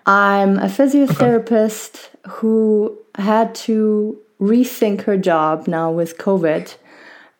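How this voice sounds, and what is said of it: Mild German-French accent. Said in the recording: “I was born and raised in Germany, and my family is French and German. That's why my accent is maybe not harsh German.”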